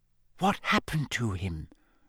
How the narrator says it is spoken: Hermione whispered

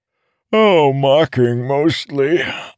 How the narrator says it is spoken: Arador said with a yawn

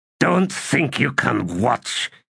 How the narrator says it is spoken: he said in a growl

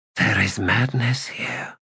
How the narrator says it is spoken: she whispered

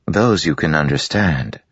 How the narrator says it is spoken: her mother said calmly

